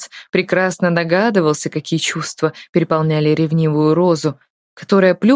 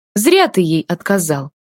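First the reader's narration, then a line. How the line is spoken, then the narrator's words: Deliberately loud voice. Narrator (Russian): нарочито громким голосом сказала она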